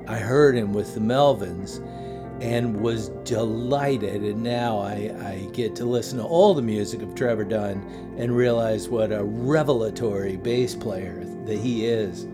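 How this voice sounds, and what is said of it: Dry, strained, fading voice. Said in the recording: “I got a dry throat, so if I sound like tonight I'm, and my voice is escaping me, it's because my voice is escaping me”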